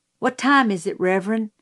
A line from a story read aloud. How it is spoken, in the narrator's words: he asked